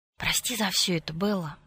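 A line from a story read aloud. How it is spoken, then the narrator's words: Whisper. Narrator (Russian): прошептал он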